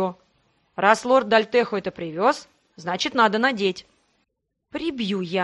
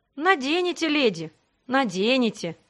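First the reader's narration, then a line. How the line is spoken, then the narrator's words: Sigh. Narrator (Russian): вздохнул он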